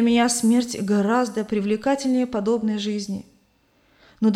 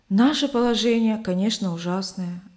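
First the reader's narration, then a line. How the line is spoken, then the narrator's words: Plain. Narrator (Russian): ответил его спутник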